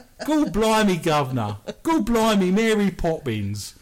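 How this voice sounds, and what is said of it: Exaggerated mock Cockney English accent. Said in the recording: “Dick Van Dyke had a fabulous English accent. We all talk like that.”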